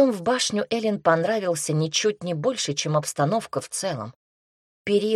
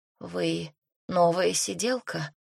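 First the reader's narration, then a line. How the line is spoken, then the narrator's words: Hoarse question. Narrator (Russian): хрипло спросила она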